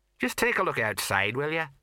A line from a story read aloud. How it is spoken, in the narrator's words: said Colon in a level voice